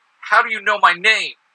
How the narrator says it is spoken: He yells

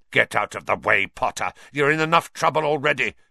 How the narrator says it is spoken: snarled Snape

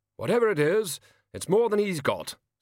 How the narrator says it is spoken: snapped the king

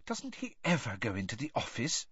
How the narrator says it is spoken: Hermione whispered suddenly

